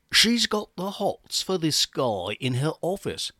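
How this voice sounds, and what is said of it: Bad put-on British accent. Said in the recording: “Notice the bad British accent.”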